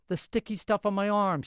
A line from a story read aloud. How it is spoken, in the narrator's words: she said impatiently